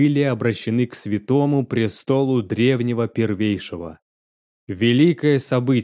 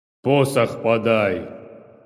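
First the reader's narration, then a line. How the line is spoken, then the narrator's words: Menacing command. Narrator (Russian): Повелел грозно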